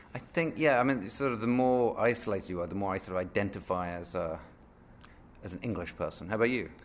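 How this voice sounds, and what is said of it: British English accent. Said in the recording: “you keep on having this British accent”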